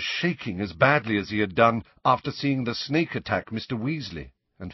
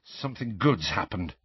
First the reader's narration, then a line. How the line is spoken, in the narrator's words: mumbled Harry